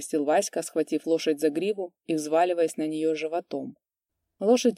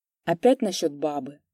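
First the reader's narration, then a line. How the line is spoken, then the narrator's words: Reluctant mutter. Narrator (Russian): Куприян неохотно пробормотал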